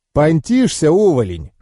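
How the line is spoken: Scoffing snort. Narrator (Russian): хмыкнул Такэдзо

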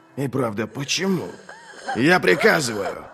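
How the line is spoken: Barked. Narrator (Russian): рявкнул Глокта

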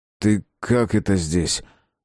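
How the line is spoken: Hoarse question. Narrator (Russian): спросил Шагин хрипло

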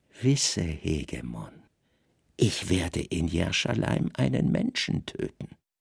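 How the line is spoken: Whispered. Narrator (German): sah den Statthalter glühend an und flüsterte

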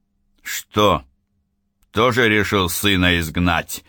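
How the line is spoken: Rude sarcasm. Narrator (Russian): довольно грубо съехидничал Акено

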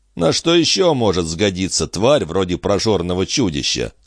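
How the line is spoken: Plain question. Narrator (Russian): спросил Гарри

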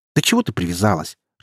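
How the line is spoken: Irritated dismissal. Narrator (Russian): Раздраженно отмахнулась дочь

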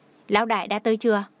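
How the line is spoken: Laughing question. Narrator (Vietnamese): mấy người đàn ông cũng cười nói hỏi

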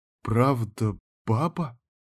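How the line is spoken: Quiet, uncertain question. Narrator (Russian): тихо спросил у него кто-то так неуверенно

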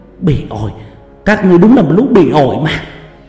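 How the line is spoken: Tense loud yell. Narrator (Vietnamese): Khuôn mặt của bà bắt đầu tỏ ra căng thẳng, hét lớn

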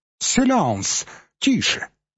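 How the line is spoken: Exclaimed in poor French. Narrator (Russian): воскликнул, который по-французски говорил плохо

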